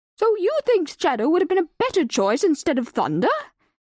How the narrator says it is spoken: Wiser barked at the ancient tortoise

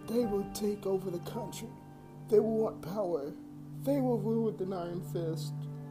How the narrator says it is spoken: my grandmother cried out

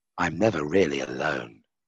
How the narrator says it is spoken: whispered Lucifer, knowingly, almost craftily

